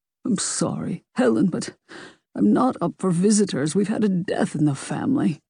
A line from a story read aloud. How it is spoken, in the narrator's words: Mario said weakly